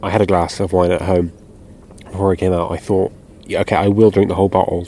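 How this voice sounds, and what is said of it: Slurred speech. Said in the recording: “I'm slurring my words ... I am slurring my words already”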